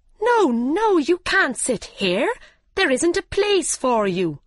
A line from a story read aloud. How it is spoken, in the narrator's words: they cried